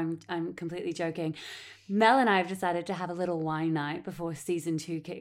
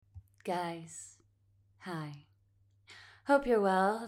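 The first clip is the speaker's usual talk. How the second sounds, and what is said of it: Soft soothing ASMR-style voice. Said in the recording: “This is my soothing ASMR voice.”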